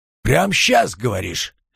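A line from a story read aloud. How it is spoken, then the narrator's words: Grunting hmph. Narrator (Russian): Майор хмыкнул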